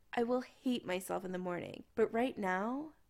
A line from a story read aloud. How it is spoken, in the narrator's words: he moaned